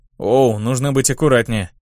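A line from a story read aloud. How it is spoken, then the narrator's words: Surprised grumble. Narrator (Russian): удивленно проворчал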